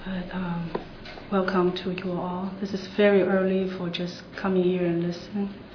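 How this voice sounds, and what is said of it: Unusually deep, husky voice. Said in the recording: “I usually don't have such a sexy voice.”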